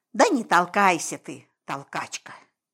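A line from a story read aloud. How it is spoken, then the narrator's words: Quiet snap. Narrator (Russian): Тихо огрызнулся Вася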